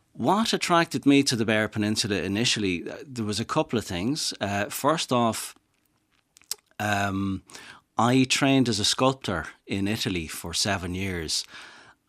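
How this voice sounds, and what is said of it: Dublin Irish accent. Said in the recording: “I'm from Dublin, as you can tell from my accent”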